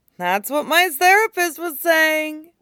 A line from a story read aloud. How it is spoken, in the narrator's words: she sobs